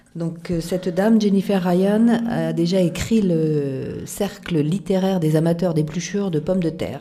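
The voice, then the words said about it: Speaks French with a noticeable accent. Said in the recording (French): “Je demande à tout le monde d'excuser mon accent”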